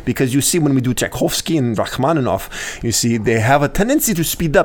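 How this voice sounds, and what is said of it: Put-on Russian accent. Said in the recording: “one I do all the time with from the podium is a Russian accent ... That was really good ... That was one of the best”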